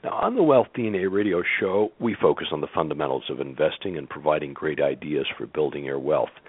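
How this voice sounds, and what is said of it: Hoarse, slightly rough voice. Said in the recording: “my hoarse voice ... it's a little bit better than it was a few days ago ... cough or clear my throat”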